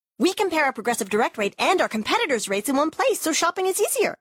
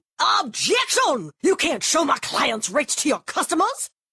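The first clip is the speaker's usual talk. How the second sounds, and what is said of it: Old-timey Southern lawyer voice. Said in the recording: “this is my impression of me arguing with an old-timey Southern lawyer in a courtroom”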